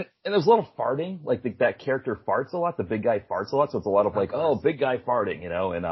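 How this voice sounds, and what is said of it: Usual voice. Nothing is said of it.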